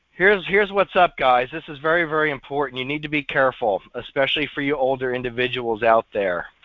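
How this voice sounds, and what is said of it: Damaged, messed-up voice. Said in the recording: “excuse my voice here. It's still messed up”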